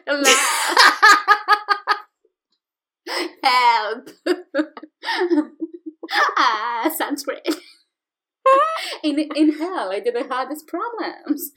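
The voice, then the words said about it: Bad put-on British accent. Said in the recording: “that's my Lucifer voice... I'm not good with voices today... this accent is horrible... I apologize to any British person. Sexy British person.”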